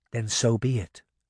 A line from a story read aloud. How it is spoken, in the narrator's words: she whispered